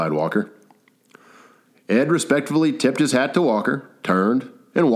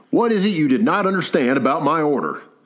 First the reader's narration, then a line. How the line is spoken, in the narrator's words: barked Ed at Walker